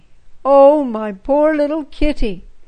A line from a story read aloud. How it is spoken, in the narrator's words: cried Frida, bursting into tears